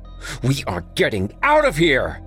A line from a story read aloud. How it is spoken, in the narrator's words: Chadwick shouted